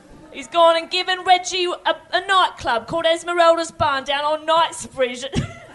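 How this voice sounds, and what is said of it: Put-on cockney accent. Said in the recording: “He's still talking like a cockney ... that is a fun sentence to say in that accent”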